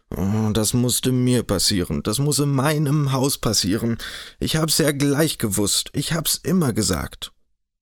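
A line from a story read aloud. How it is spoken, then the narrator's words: Distressed continuous groaning. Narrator (German): mit gerungenen Händen stöhnte fortwährend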